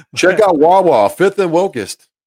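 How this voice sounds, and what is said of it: Put-on Philadelphia accent. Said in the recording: “my best Philly impression”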